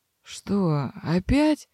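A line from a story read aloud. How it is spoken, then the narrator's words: Slightly hoarse voice. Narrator (Russian): послышался чуть сиплый голос Себастьяна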